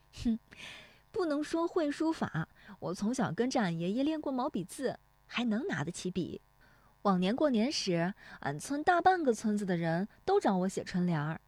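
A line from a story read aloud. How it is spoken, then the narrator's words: Laughing. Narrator (Chinese): 乔红梅笑说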